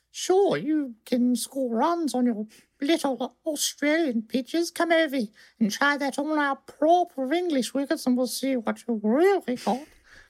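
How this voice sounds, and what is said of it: Put-on English accent. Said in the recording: “they would have said it in an accent ... Was that the Queen when she was like 6?”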